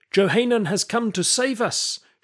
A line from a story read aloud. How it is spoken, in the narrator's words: shouted someone, and many cheered